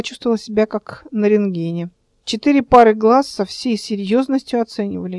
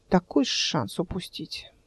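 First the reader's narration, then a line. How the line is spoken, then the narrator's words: Sighing. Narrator (Russian): вздохнул Клим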